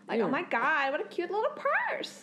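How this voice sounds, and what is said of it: Nasal Californian girl voice. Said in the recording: “General Americans just like this. Like, especially when I lived in California, a lot of girls I hear are very nasally. ... Nasally.”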